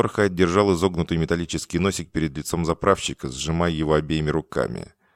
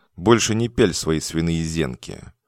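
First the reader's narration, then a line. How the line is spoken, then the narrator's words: Calm. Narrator (Russian): сказал спокойно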